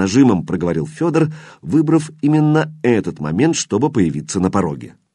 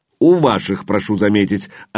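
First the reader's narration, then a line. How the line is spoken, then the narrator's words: Snapping. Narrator (Russian): огрызнулся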